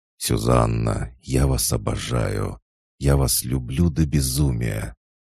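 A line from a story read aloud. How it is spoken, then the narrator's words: Quiet restrained voice. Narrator (Russian): он сказал ей тихим, сдержанным голосом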